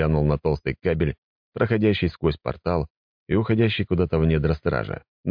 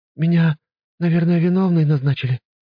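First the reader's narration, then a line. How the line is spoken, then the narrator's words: Sighing. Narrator (Russian): вздохнула госпожа мэр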